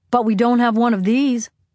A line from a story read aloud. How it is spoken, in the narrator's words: the oldest boy shouted